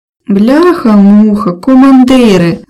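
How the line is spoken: Groaning. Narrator (Ukrainian): застогнав Аляска

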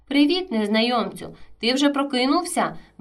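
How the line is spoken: Cheerful greeting. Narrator (Ukrainian): весело привітався

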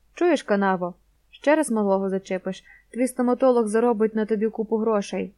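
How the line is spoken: Near hiss. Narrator (Ukrainian): майже прошипів торнадо

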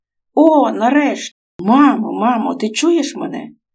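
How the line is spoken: Joyful exclamation. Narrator (Ukrainian): радісно вигукнув Микола

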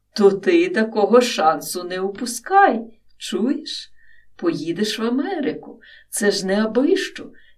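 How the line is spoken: Emotional exclamation. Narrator (Ukrainian): емоційно вигукнув

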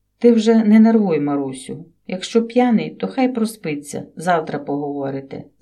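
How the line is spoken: Mother-in-law whispering. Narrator (Ukrainian): зашепотіла свекруха

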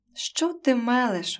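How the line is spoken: Exclamation. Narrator (Ukrainian): вигукнув Андрій

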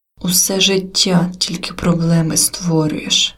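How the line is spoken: Father's hateful hiss. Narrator (Ukrainian): прошипів з ненавистю батько

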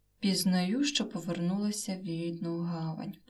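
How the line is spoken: Heavy-sighing thought. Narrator (Ukrainian): подумала і важко зітхнула

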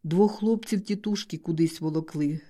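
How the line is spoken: Plain. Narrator (Ukrainian): сказав

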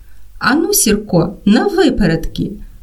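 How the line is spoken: Cheerful shout. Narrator (Ukrainian): Артемко весело гукнув

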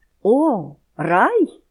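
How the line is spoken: Stranger exclaiming. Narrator (Ukrainian): вигукнув пришелець

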